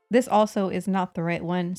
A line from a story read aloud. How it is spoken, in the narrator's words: said he